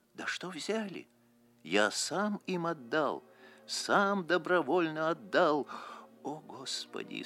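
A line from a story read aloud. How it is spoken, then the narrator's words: Moaning. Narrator (Russian): стонал он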